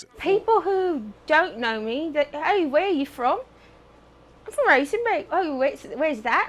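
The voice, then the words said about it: English-sounding accent. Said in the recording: “Don't let the queen's tongue fool you ... got that accent ... Oh, not from England, sorry ... How'd you talk like that?”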